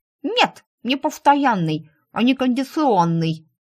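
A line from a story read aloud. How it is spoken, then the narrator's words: Snorting reply. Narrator (Russian): фыркнула рыжая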